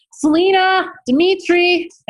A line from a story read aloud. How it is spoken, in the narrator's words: I shouted